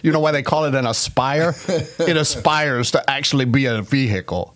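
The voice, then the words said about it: Put-on Boston accent. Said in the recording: “real Boston accents ... I just wanted to do my Boston accent.”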